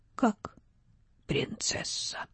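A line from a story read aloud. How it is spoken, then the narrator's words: Barely audible. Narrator (Russian): закончила едва слышно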